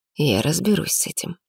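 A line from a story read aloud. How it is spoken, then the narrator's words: Softer. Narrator (Russian): уже мягче произнес Арман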